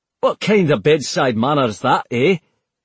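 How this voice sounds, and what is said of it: Thick Scottish accent. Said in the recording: “speaking out of turn in a thick Scottish accent”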